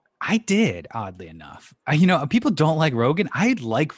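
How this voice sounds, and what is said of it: Usual voice. Nothing is said of it.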